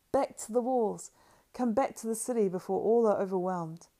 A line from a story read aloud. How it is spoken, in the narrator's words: they cried